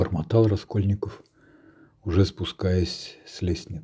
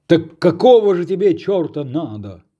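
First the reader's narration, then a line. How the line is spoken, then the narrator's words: Shouting from above. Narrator (Russian): закричал сверху Разумихин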